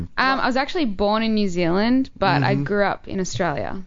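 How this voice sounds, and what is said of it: Cute Australian accent. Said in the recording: “She's definitely got a very cute accent ... Australia is my accent.”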